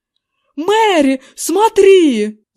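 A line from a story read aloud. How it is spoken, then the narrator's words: Yelling. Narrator (Russian): завопил мистер Эвандер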